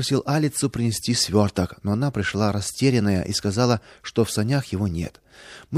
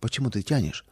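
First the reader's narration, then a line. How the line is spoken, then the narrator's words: Quiet question. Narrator (Russian): тихо спросила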